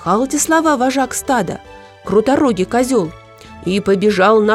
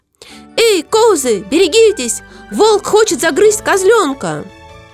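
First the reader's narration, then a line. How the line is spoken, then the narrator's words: Shouting. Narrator (Russian): Нахудак снова закричал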